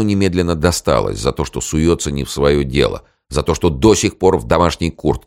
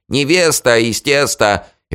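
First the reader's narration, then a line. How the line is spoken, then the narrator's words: Chorus shouting behind door. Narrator (Russian): Они хором закричали из-за двери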